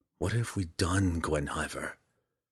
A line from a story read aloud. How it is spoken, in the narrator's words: Driz whispered